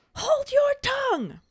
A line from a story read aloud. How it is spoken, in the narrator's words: Snape cuts her off to yell